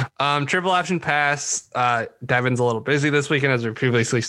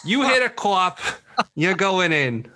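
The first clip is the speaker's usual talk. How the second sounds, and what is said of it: Put-on Boston accent. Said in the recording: “That's my Boston accent.”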